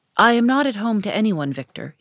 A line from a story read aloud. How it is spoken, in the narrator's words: he said with a sigh